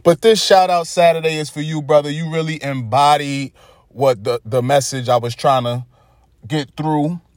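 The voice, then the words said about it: Brooklyn New York accent. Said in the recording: “my Brooklyn New York accent sometimes kicks in”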